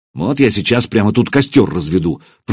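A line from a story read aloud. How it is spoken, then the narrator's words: Grumbling. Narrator (Russian): проворчал Илья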